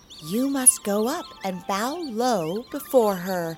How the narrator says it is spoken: whispered the mother to her children

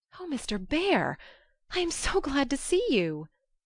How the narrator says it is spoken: cried Joe, as if she feared the night would swallow him up before she could get him in

